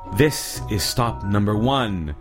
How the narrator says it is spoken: the old Grinchy Claus hissed

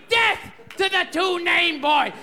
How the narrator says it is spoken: came out screaming

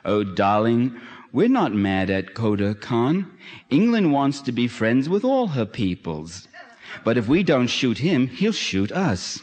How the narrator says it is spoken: The British colonel answers tenderly

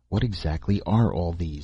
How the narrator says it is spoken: He murmured

